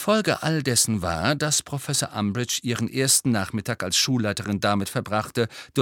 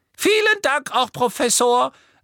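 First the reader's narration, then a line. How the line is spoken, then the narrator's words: Quiet squeaky voice. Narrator (German): sagte Professor Flitwick mit seiner leisen Quiekstimme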